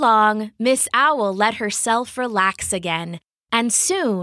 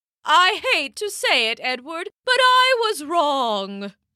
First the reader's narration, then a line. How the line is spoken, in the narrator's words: she called out